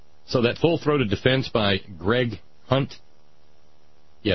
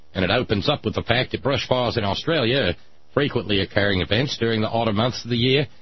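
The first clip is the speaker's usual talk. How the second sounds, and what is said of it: Bad put-on Australian accent. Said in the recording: “That's my bad Australian accent, too.”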